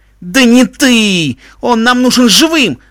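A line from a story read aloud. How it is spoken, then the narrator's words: Shouting. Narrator (Russian): закричал Себастьян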